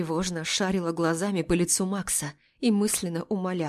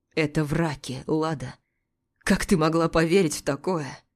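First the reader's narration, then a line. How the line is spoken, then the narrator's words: Muffled angry voice. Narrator (Russian): Голос Макса звучал глухо и зло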